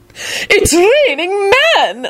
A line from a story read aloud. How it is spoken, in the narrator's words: Lady Fanshawe squealed